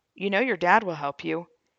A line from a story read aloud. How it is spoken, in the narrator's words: calmly replied